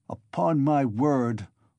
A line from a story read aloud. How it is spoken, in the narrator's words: Luzhin cried wrathfully and irritably, crimson with confusion